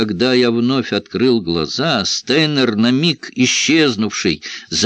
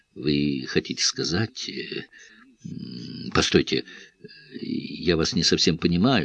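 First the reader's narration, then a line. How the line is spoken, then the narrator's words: Mumbled, composure slipping. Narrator (Russian): Чувствуя, что хладнокровия у меня надолго не хватит, промямлил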